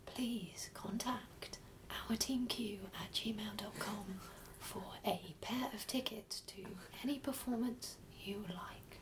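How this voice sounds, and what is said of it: Whispery ASMR-style impression. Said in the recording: “That was like my weird ASMR version ... are you trying to do an impression of Nigella? ... It was like you were whispering into her ear.”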